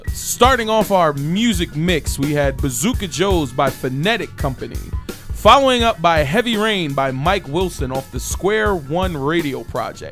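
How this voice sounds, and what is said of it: Announcer-style radio voice. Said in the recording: “I'm going to do my best radio voice.”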